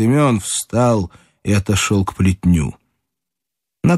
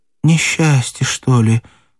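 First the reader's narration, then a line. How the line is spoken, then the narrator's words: Trembling voice. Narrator (Russian): сказала Матрена дрогнувшим голосом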